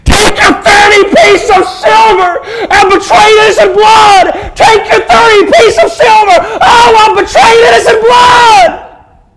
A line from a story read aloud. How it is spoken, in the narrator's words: there was a voice screaming upward